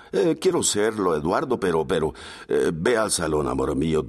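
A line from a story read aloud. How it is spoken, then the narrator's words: Plain. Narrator (Spanish): dijo él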